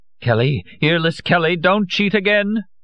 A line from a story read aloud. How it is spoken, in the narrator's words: Madame Olcott cried